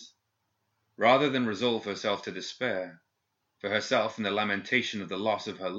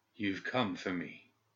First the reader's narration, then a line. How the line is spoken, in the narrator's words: Gideon said, with little more than a whisper